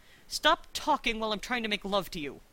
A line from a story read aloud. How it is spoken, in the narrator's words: Rodney snapped